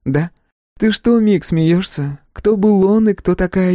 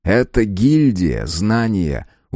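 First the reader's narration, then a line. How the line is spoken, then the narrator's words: Teacherly tone. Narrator (Russian): учительским тоном пояснил Мик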